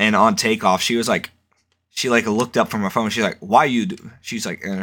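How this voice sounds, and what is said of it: Usual voice. Nothing is said of it.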